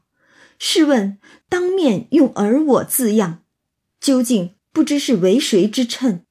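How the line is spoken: Laugh and sigh. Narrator (Chinese): 一笑一叹

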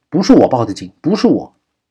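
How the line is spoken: Shouting. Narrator (Chinese): 王若思叫道

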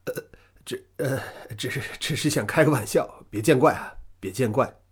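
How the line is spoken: Trembling voice. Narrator (Chinese): 大块儿他声音有点发颤

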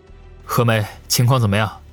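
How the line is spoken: Deep grave question. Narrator (Chinese): 王宇沉声问道

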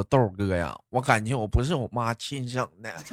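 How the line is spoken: Quiet muttering. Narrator (Chinese): 宝儿总是悄悄的来找我嘀咕说

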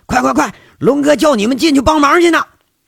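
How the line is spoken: Shouting while running. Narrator (Chinese): 杨伟啊，就着跑的这势头喊了句

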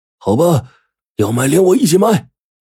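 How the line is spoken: Shouting. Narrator (Chinese): 嘴里大喊着

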